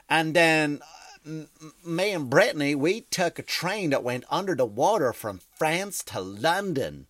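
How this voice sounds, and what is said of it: Put-on Southern US accent. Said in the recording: “a Southern person that has that accent”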